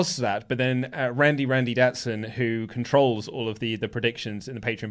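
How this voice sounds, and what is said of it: Usual voice. Nothing is said of it.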